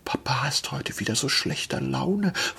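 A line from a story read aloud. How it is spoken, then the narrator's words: Little girl whispering. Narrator (German): flüsterte die Kleine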